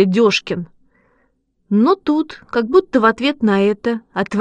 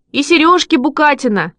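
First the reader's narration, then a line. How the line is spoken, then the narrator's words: Children shouting. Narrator (Russian): закричали ребята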